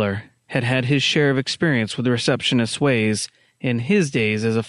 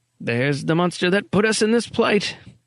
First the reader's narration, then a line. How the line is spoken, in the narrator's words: Erickson grunted